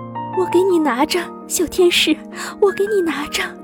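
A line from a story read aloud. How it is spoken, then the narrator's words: Crying. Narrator (Chinese): 哭着说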